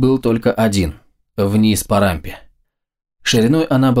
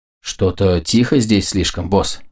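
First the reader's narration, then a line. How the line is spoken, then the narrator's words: Grumbling. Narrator (Russian): проворчал Густав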